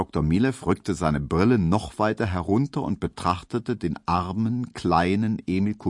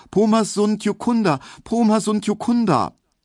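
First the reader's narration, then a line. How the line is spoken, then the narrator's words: Repeated high, fearful calling. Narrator (German): Er rief nur immer wieder ganz hoch und ängstlich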